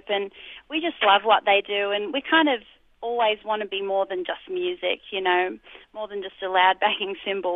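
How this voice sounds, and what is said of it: Strong Australian accent. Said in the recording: “you still have such a strong Aussie accent.”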